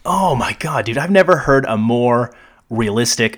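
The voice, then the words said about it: Sarcastic, mock-enthusiastic delivery. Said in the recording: “if you can't hear the sarcasm”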